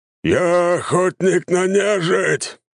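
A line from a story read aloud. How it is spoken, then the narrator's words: Big man growling. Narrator (Russian): зарычал крупный мужик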